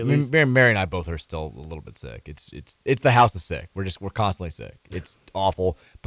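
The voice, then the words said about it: Strained, unwell-sounding voice. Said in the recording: “My voice is struggling a little bit.”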